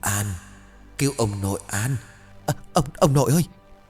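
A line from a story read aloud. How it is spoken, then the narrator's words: Stammering. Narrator (Vietnamese): An lắp bắp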